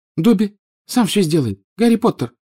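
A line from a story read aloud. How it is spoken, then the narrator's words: Squeaky, tearful. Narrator (Russian): пропищал Добби, и его большие, как теннисные мячики, глаза наполнились слезами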